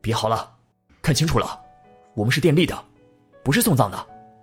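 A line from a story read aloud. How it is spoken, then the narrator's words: Angry. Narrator (Chinese): 几个工人愤怒的说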